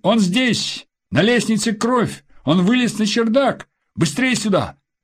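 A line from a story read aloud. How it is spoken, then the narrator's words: Shout from above. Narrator (Russian): сверху крикнули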